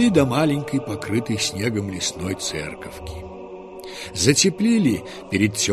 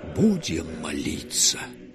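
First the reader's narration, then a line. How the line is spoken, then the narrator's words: Whisper. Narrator (Russian): прошептал Сергий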